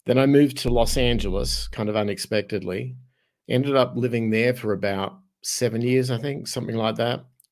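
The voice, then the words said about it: Australian accent. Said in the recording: “my accent kind of gives it away, because originally I'm from Australia.”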